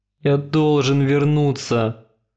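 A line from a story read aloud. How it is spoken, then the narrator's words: Groaning. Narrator (Russian): простонал он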